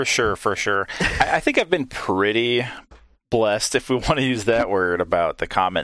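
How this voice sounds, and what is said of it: Usual voice. Nothing is said of it.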